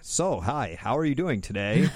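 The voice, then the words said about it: Exaggerated nerdy white guy voice. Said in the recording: “this voice the black comedian voice because every black comedian has a white guy voice ... total nerdy white guy accent”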